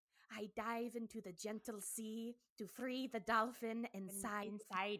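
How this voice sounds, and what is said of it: Attempted put-on accent. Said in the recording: “I can't do the accent, but I'm going to try”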